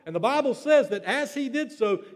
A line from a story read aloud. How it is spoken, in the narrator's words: he cried out to everyone in a loud voice